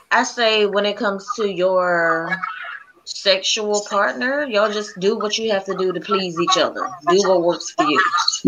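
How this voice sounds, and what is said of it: Sultry, sexy bedroom voice. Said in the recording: “got that sexy bedroom voice. ... got that nasty voice.”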